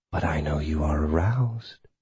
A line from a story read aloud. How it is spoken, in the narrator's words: she breathed in my ear